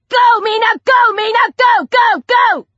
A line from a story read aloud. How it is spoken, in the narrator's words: Ellie screaming